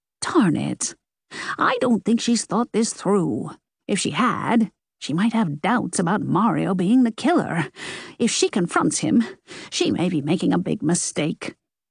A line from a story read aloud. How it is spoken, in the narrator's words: Nan said, at a jog